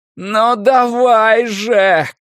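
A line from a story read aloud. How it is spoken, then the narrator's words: Shouting. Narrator (Russian): крикнул Стью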